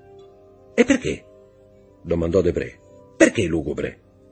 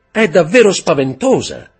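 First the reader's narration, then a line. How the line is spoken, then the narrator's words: Woman shouting. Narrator (Italian): gridò la signora di Villefort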